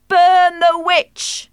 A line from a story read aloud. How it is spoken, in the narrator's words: They shouted